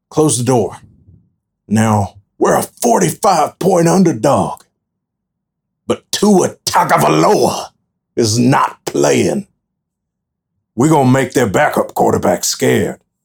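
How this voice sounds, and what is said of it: Houston Nutt impression. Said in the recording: “great Houston Nutt impression”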